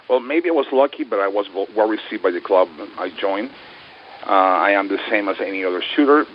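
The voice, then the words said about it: Hispanic accent. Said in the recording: “as a Hispanic ... I do have a funny accent.”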